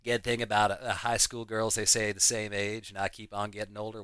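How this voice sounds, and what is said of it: Poor Matthew McConaughey impression. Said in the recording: “terrible Matthew McConaughey impression”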